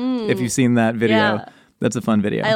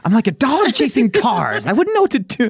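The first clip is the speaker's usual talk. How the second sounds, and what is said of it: Imitates the Joker's voice. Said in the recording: “That is an impression of Chet Hanks doing an impression of Heath Ledger as the Joker.”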